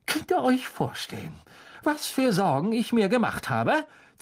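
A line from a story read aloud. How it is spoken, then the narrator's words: Hissed. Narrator (German): zischte Mrs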